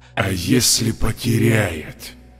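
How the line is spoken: Hissing in face. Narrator (Russian): Смерть уже шипела мне в лицо

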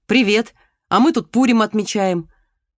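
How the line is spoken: Joyful young man. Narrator (Russian): рыжий парень, сказал радостно

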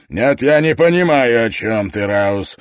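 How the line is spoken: Barked. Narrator (Russian): рявкнул МакКетчни

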